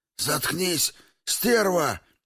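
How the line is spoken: Hoarse rasp. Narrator (Russian): прохрипел длинноволосый

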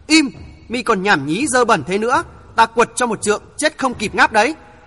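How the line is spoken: Angry loud shout. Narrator (Vietnamese): Hồng Nương Tử tức giận quát lớn

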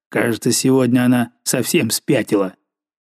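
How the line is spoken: Angry mutter. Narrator (Russian): злобно бормоча

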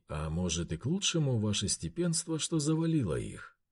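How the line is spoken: Calm. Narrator (Russian): Спокойно сказал Бажен

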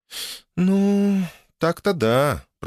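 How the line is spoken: Drawling. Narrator (Russian): протянула Оля

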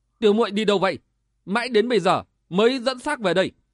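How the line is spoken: Snapping sharply. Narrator (Vietnamese): gắt lên

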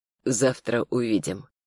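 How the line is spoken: Quiet. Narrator (Russian): произнес он тихо

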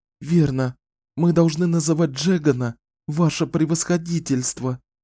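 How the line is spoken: Trembling whisper. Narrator (Russian): сказала Жанет дрожащим шепотом

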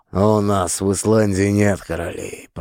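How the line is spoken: Grumbling. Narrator (Russian): проворчал я

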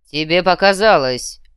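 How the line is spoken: Menacing reply. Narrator (Russian): грозно ответил Шас

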